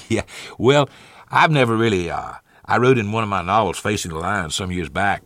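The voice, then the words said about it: Southern American accent. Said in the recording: “coming up north with a southern accent ... you hadn't bothered to try to lose that southern accent”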